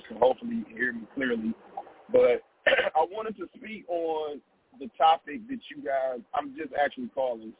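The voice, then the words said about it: Hoarse voice. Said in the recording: “My voice is a little hoarse,”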